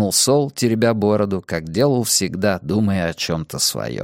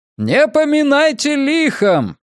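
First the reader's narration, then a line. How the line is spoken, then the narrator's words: Shout. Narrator (Russian): крикнул он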